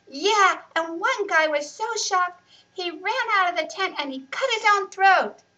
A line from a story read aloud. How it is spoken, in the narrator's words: yelled Riaz